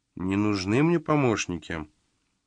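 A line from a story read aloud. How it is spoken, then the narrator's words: Absent-minded mutter. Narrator (Russian): отсутствующим тоном пробормотала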